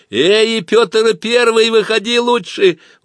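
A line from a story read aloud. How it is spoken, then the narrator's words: Threatening shout. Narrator (Russian): угрожающе крикнул трикотаж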